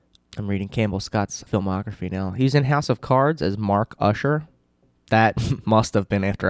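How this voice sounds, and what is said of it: Usual voice. Nothing is said of it.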